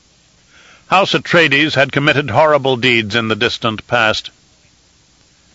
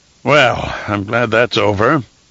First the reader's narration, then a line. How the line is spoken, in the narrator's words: Paulus sighed